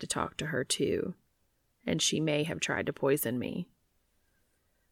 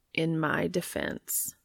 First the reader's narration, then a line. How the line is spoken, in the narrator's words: Castiel says slowly